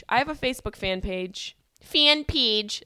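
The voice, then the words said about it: Syracuse accent on vowels. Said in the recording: “That's my Syracuse accent coming out.”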